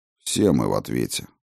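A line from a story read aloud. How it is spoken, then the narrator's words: Grumbled. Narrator (Russian): проворчал я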